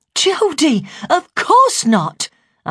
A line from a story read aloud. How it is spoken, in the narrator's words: said sharply